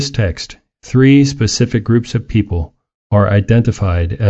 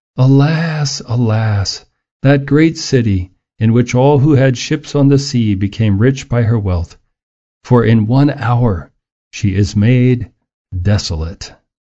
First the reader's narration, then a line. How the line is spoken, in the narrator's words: cried out, weeping and wailing and saying